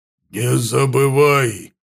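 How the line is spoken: Growled. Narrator (Russian): прорычал Лотар

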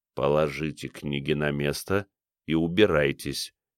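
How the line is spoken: Quiet. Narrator (Russian): тихо сказал Джереми

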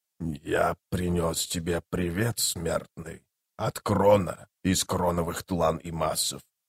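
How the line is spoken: Quiet, calm whisper. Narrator (Russian): сказал он тихим, спокойным шепотом

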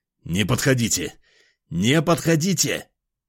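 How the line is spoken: Frenzied shout. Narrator (Russian): Иступленно закричал

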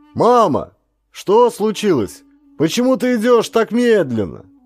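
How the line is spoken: Distant shout. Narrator (Russian): прокричал издали я

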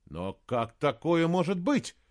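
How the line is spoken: Exclamation. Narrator (Russian): воскликнул он

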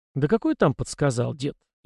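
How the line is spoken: Snorting. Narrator (Russian): я хмыкнул

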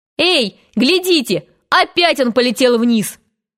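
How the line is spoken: Ecstatic yelling. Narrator (Russian): Вопил он в восторге

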